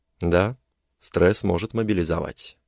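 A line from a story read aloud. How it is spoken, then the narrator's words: Calm. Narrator (Russian): сказал спокойно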